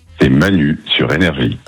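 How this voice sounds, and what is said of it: Deep movie-trailer voice-over voice. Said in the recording (French): “Là, on a de la voix, là... Barry White, c'est moi... Vous aimez bien la grosse voix?... Il fait voix off un peu. Je vois bien en générique de film.”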